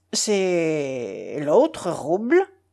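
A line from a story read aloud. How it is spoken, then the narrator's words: Stammered, tall man. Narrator (French): balbutia le grand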